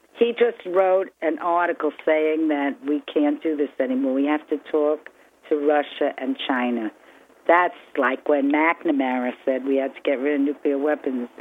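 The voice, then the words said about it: Regional accent. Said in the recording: “as an old New Yorker, that I just love your accent”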